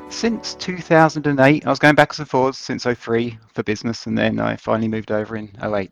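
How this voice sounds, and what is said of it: British accent. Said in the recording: “based on your accent we can guess, you're British”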